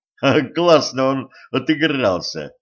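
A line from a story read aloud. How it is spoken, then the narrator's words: Laughing intern. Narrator (Russian): засмеялся стажер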